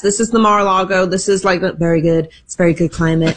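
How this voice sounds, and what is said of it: Imitates another person's voice. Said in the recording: “Are you working on a Trump impersonation? ... That was pretty good ... It was not very good”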